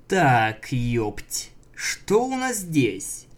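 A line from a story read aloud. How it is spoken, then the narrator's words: Drawled. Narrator (Russian): Протянул он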